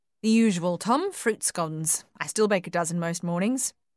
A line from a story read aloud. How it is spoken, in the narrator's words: she said